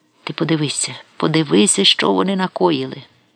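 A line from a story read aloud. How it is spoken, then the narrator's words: Sobbing, thin voice. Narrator (Ukrainian): від ридання сива голова тряслася, він повторював вузьким голосом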